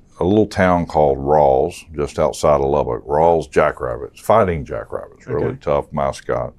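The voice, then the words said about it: New York accent. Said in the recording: “Don't let the New York accent throw you off.”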